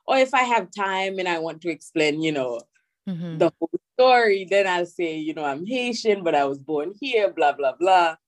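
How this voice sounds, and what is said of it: Haitian accent in English. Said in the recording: “I don't explain my accent”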